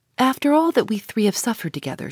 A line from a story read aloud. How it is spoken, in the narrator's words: said